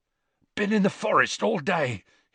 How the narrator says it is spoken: he panted

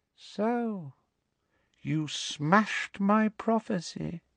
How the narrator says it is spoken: said Voldemort softly

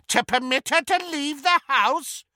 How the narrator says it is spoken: cackled Muriel

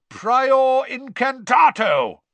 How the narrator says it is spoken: roared Mr

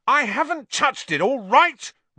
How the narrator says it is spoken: Ron roared back

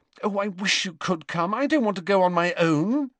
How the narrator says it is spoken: said Hermione anxiously

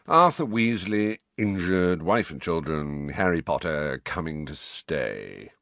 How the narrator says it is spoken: recited Phineas in a bored voice

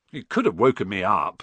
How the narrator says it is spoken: said Ron, crossly

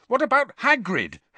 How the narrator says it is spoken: Harry said angrily

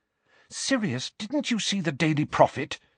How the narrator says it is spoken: said Hermione anxiously

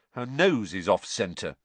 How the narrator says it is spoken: said Ron

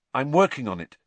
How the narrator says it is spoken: said Harry quickly

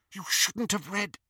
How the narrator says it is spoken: whispered Petunia

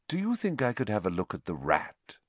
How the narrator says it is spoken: he said, evenly

